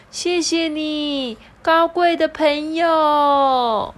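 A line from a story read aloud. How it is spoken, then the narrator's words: Loud, grateful. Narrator (Chinese): 他大声的对着这个菲菲尼说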